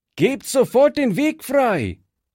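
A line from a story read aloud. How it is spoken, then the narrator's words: Calling out. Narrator (German): rief Fritz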